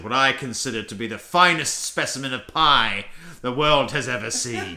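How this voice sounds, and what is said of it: Ridiculous put-on accent. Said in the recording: “speaking in this ridiculous accent”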